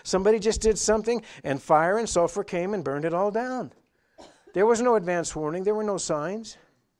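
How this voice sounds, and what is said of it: Raised, louder preaching voice. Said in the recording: “I'm raising my voice a little bit ... This should be screaming at you”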